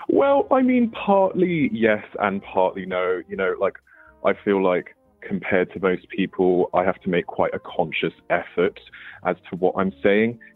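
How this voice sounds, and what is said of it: Deep voice, British accent. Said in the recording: “I've been told since I was like 13 that I'm a deep voice ... I actually am British. I'm not like faking my accent.”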